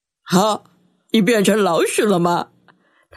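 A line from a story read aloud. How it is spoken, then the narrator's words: Teasing laugh. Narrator (Chinese): 艾瑞克笑他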